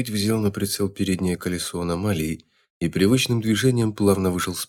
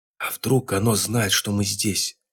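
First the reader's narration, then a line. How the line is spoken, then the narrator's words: Loud whisper. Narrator (Russian): громко зашептал Раз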